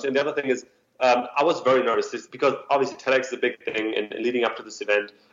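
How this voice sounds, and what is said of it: Thick non-native English accent. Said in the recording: “I still have a very thick accent”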